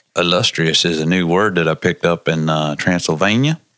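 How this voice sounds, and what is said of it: Redneck vampire voice. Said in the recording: “do you sound like a redneck vampire ... You sound more like Vampire Bill”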